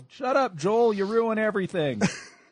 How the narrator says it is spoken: the kids all yelled

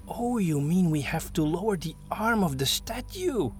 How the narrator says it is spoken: he gasped

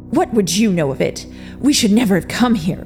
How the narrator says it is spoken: Victor bellowed, standing up quickly, flashing his vampire teeth and spitting

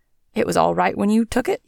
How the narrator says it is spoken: he exclaims indignantly

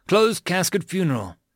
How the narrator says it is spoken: Edison sighed

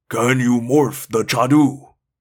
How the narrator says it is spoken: Doc asked, grunting from the effort of holding me

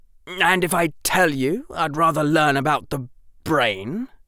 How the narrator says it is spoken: Draco said, his voice now hard

